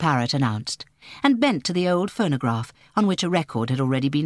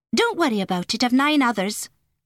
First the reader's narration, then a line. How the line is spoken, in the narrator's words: she answered testily